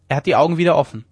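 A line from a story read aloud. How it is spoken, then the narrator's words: Called out. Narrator (German): rief da Sam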